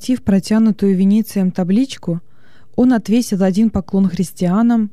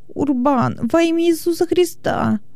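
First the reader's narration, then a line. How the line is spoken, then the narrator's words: Whimpering. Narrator (Russian): Хилон заскулил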